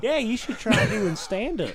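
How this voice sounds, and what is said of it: Put-on Memphis accent. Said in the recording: “Is that your Memphis accent ... Solid impression. ... That's not that bad.”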